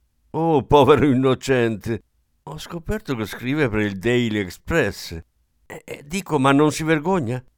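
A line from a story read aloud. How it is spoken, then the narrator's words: Curt exclamation. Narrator (Italian): lei esclamò secca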